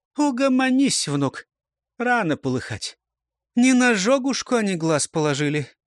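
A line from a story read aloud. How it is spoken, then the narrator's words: Sigh, explaining. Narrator (Russian): Вздохнула, пояснила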